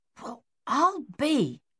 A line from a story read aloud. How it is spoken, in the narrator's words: Captain Egan muttered